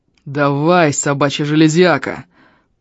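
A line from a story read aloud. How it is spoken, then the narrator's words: Growled. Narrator (Russian): прорычал слышавший это Эльм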